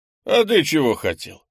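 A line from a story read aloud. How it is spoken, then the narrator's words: Snorting. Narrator (Russian): хмыкнул Крис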